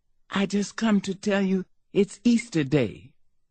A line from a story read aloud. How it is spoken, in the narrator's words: She whispered